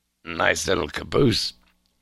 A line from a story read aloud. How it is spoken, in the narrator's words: he muttered